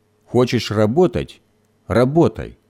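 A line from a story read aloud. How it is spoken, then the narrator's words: Angry grumble. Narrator (Russian): сердито проворчал Гоша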